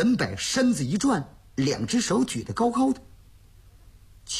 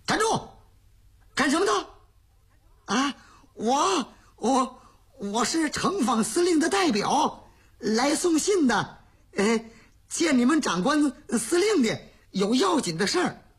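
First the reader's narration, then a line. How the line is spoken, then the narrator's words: Shout. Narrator (Chinese): 乔振山喊了这么一声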